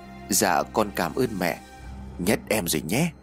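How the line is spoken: Grateful, smiling. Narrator (Vietnamese): Chị Mai mỉm cười biết ơn

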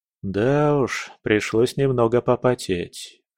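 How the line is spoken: Tired admission. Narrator (Russian): устало признался я

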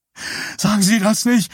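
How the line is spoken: Hoarse shout. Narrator (German): schrie Richardson heiser

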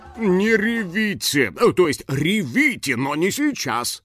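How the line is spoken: Grumbling. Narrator (Russian): проворчал режиссер

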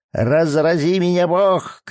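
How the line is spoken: Shouting old woman. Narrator (Russian): крикнула старая Хэт

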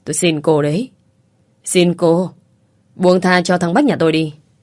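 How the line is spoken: Woman wailing. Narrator (Vietnamese): Người phụ nữ gào lên

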